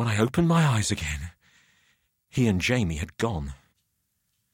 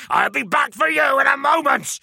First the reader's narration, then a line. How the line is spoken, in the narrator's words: the porter shout